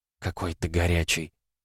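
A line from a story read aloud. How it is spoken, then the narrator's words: Hot whisper in ear. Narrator (Russian): жарко прошептала Лиза на ухо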